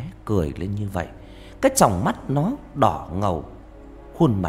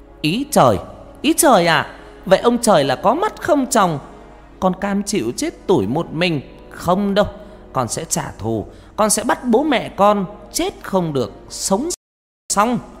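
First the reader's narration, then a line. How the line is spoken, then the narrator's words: Near-shout in silent night. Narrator (Vietnamese): Con Hoa tiếng nói như hét lên giữa bốn bề đêm vắng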